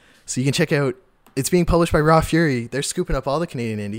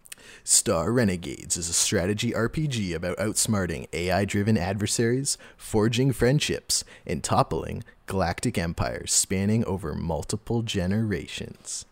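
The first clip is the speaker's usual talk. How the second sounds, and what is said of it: Movie trailer announcer voice. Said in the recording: “Got to do the trailer voice guy.”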